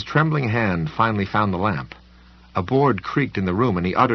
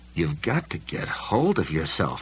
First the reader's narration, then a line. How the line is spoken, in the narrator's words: he muttered